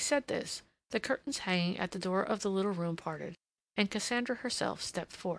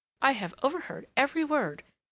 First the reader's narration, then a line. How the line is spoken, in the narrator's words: she exclaimed